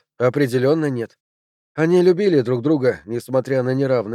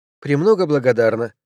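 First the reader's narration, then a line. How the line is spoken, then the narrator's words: Curt, slightly less cold. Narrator (Russian): бросила она чуть менее холодно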